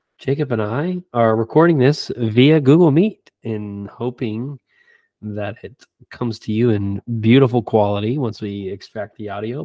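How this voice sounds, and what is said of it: Sick-sounding voice. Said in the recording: “I've been sick all week long, as you can probably tell from my voice. Hopefully it's not too bad”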